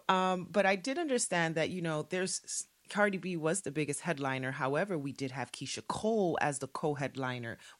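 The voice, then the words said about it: Worn-out voice after a long night. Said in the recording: “please excuse my voice, guys. I was out all night.”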